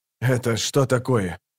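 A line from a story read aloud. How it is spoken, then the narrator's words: Grumbled. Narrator (Russian): проворчал Кол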